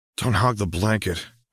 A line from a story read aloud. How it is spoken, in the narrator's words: Harry groaned with a trace of annoyance